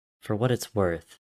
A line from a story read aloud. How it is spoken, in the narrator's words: his father said